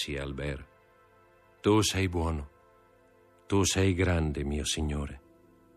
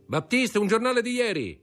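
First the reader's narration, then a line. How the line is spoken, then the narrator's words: Shouting. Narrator (Italian): gridò Beauchamp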